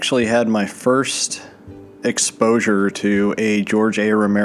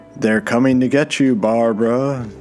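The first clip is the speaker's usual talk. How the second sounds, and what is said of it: Poor half-hearted film line impression. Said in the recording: “that was a poor impression... I wasn't really going for an actual impression”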